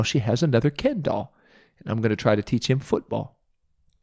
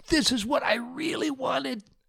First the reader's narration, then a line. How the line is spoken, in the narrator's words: she shouted